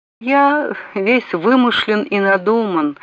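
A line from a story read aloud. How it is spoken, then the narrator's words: Regretful, somewhat insincere sigh. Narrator (Russian): вздохнул Пэтси не без сожаления, однако и не без определенного лицемерия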